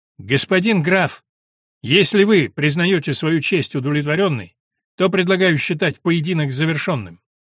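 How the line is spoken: Loud clear declaration. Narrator (Russian): подпоручик громко и четко произнес

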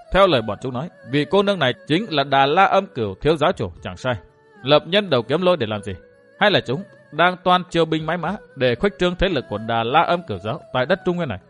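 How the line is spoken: Astonished mutter. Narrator (Vietnamese): Dương Viễn thầm kinh ngạc nói lẩm bẩm

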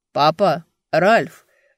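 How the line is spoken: Loud call. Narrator (Russian): громко позвал Эберт

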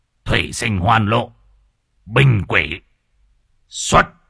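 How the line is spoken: Muttered incantation, then shout. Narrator (Vietnamese): lẩm bẩm đọc chú rồi quát

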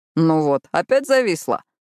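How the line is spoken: Snort. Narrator (Russian): хмыкнул Мэтью

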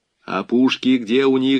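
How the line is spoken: Plain. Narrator (Russian): спросил Буденный

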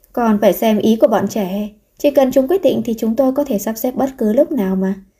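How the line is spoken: Gentle, smiling. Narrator (Vietnamese): Bố mẹ Thi Thừa An mỉm cười nhẹ nhàng nói

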